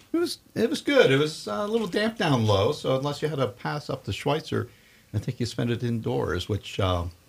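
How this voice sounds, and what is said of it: Slightly raspy voice. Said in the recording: “Suffering from a little bit of a raspy throat.”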